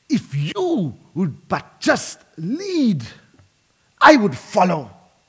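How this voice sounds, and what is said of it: Attempted Scottish accent. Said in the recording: “Do my best to do a Scottish accent”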